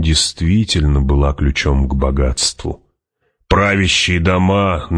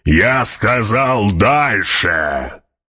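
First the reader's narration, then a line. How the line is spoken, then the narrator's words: Roared. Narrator (Russian): проревел барон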